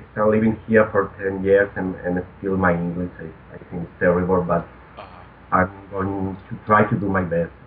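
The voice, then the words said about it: Non-native foreign accent in English. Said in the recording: “I absolutely love your accent. You sound so romantique. ... I apologize for this accent ... people be kind of annoying my accent.”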